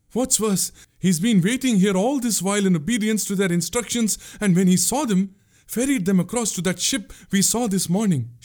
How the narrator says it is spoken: she gasped

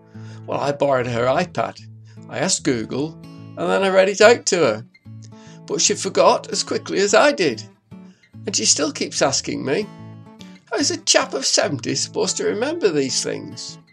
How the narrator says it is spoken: Ernest chuckled

